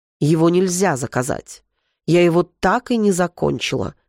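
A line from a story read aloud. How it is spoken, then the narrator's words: Categorical, firm tone. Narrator (Russian): категоричным тоном ответила Альма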